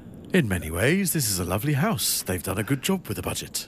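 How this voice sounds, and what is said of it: Ghostly imitation of another person's voice. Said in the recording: “Do an impression of Kevin MacLeod's impossible. ... That sounds like a ghost. Like a friendly ghost.”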